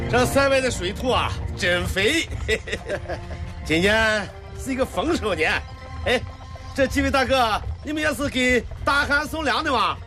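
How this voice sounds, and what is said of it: Shaanxi regional Chinese accent. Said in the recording (Chinese): “听你的口音是陕西人吧？”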